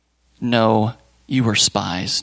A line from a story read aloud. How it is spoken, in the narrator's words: Joseph said